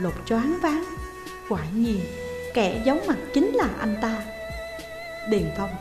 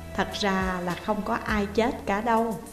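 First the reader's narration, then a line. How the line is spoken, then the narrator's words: Mysterious smiling tone. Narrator (Vietnamese): Điền Phong mỉm cười bí hiểm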